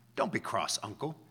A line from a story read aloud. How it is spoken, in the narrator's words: said the nephew